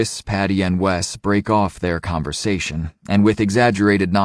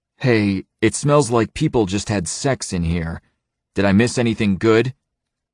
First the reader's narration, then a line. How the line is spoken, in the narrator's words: he says even more loudly